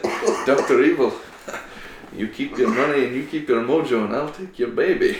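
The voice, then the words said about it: Austin Powers character accent. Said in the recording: “that accent ... Austin Powers”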